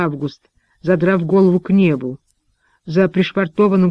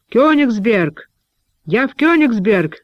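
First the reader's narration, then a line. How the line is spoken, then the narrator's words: Shouting. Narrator (Russian): кричал Август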